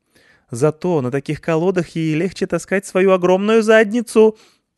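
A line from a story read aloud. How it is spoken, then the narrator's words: Shouting. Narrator (Russian): прокричала Нетта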